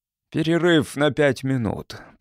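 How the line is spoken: Strained grunting. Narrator (Russian): прокряхтел он

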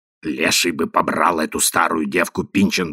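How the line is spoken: Angry muttering. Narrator (Russian): бормотала сердитая красавица

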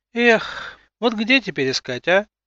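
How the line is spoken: Sorrowful sigh. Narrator (Russian): Горестно вздохнула Анята

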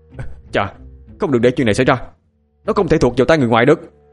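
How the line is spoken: Angry. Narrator (Vietnamese): Dương Khang nghe thấy vậy thì liền tức giận

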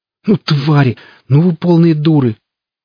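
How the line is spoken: Hissing. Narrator (Russian): Эльвира зашипела на него

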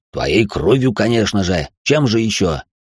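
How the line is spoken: Snapping retort. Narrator (Russian): огрызнулся Бьяко Тен

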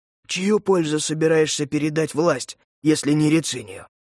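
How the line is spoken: Plain. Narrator (Russian): спросил Маджура

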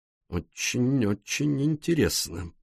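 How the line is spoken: Muttered. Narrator (Russian): пробормотал Пуаро

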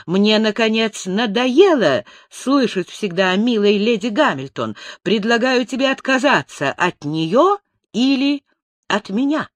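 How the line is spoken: Agitated exclamation. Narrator (Russian): Жена Нельсона ... с волнением воскликнула

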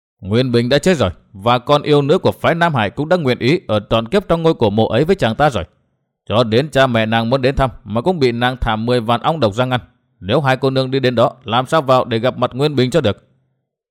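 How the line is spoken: Cold reply. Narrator (Vietnamese): lão lạnh lùng đáp

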